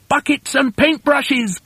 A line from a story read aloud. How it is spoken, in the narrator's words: cried Mugglewump